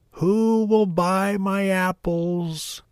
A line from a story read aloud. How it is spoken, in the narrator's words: called out